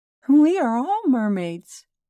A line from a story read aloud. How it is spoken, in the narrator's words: chimed a laughing chorus